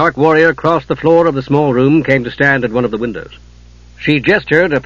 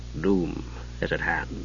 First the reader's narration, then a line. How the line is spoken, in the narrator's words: Tarkaisis spoke softly